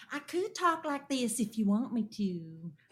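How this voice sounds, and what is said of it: Put-on Southern Alabama accent. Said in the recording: “It does. It does. A little bit of Alabama in there. ... The Southern”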